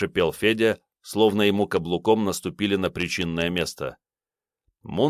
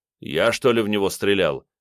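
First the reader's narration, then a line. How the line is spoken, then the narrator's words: Angry question. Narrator (Russian): зло поинтересовался Мунлайт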